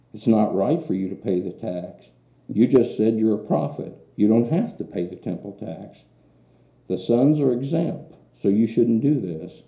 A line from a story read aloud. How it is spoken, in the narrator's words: Peter exclaimed